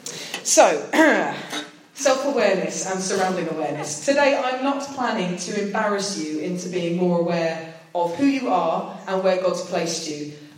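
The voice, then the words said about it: British accent. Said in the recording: “the only British person there, I'd definitely said enough to spot my accent.”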